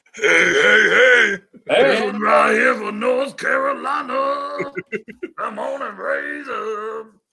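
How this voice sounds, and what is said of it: Cartoon character voice. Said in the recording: “in a Fat Albert voice”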